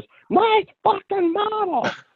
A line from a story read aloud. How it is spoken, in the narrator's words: yelled